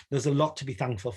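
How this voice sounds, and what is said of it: Broad North East England accent. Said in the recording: “your accent's really broad in that podcast... I'm in the Northeast”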